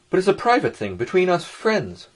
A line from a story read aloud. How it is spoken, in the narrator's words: Ferfetchkin said crossly